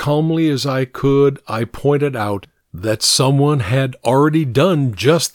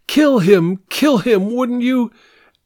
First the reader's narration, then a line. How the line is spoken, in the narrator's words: she answered herself by exclaiming